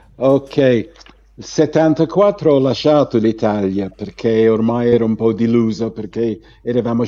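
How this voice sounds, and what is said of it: Italian with an English accent. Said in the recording (Italian): “ancora parli con l'accento inglese”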